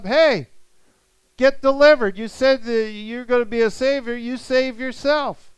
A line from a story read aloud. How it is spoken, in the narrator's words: They're hollering up